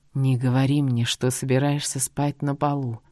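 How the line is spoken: Deep husky voice. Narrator (Russian): грудным хрипловатым голосом произнес Мот

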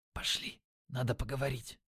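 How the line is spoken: Whisper. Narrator (Russian): шепнув

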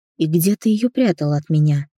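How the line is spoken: Laughing. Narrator (Russian): рассмеялась я

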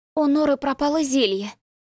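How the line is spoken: Dejected announcement. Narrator (Russian): упадническим тоном объявила София, обеспокоенно

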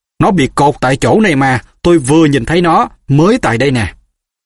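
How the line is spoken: Furious. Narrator (Vietnamese): Giọng tên đạo phụ hết sức tức giận

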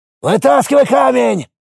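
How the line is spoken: Shout. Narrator (Russian): крикнул Григорий

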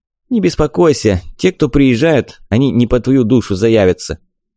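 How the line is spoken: Amused snort. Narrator (Russian): Валяев хмыкнул, как будто сказал забавную шутку

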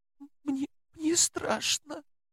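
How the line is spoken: Sobbing. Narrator (Russian): всхлипнула она и заплакала снова

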